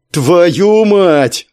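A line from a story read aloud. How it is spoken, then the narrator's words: Angry yelling. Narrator (Russian): заорал Леха и со злости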